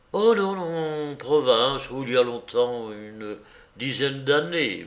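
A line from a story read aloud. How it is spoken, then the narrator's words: Stammered. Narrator (French): balbutia Koch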